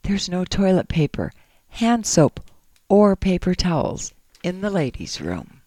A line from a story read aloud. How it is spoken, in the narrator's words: whispered